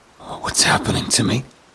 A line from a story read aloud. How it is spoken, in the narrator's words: muttered